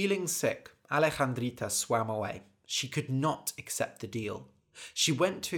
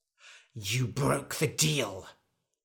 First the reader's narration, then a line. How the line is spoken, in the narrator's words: hissed the wizard